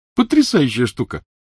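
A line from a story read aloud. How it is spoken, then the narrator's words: Happy, smiling. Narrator (Russian): сказал Невилл, радостно улыбаясь Гермионе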